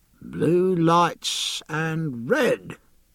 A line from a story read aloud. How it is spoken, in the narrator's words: murmured the gunner, slowly